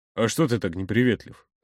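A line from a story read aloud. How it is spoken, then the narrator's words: Casual question. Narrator (Russian): спросил Игорь обыденным тоном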